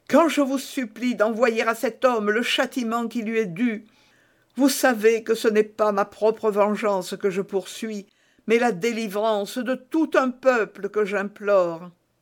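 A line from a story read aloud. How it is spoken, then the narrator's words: Exclaimed. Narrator (French): s'écria Milady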